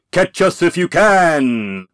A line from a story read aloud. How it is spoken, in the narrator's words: Little John bellowed